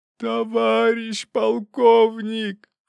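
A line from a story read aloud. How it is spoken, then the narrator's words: Desperate howl. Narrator (Russian): Последний раз взвыл нарушитель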